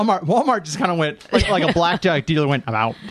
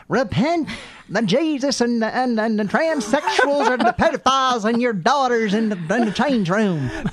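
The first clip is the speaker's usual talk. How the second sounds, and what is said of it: Slips back into former accent. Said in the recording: “All of a sudden, I just feel my accent going back as well.”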